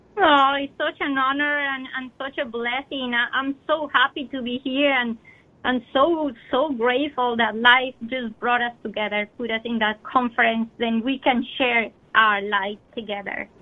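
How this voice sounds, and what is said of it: Slight Colombian accent. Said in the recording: “has a bit of an accent, if you might have noticed ... born in Colombia”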